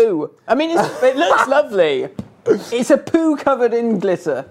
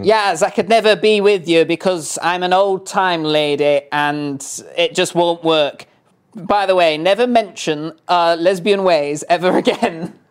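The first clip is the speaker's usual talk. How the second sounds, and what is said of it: Put-on character voice. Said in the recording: “That's your Karen voice, isn't it? ... That is what that accent is, isn't it?”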